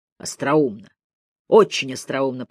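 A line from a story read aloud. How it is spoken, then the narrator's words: Said through gritted teeth. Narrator (Russian): процедил Мэлори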